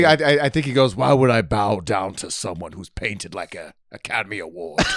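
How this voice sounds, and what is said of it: Usual voice. Nothing is said of it.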